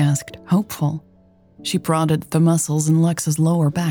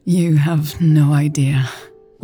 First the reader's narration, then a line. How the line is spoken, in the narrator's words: Lex sighed